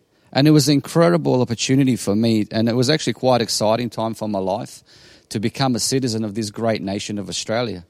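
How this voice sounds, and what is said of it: Bosnian accent. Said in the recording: “you hear my accent is a bit different. So I come from Bosnia”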